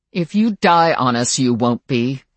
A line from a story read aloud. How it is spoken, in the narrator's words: said Kyle with a growl that would have done credit to any of the werewolves in the room